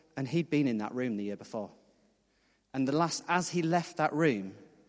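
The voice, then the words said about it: Northeast England accent. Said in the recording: “you probably can't guess from my accent, but I'm from the northeast of England”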